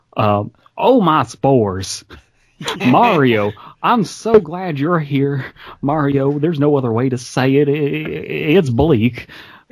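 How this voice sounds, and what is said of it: Imitates another person's voice. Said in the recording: “the only accent that I can do ... your Billy Mays”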